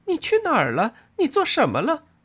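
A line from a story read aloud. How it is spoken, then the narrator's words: Laughing, hollow. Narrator (Chinese): 他笑了起来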